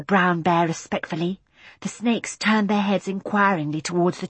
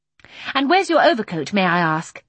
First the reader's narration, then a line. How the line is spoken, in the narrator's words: she demanded, looking crossly but without surprise at Michael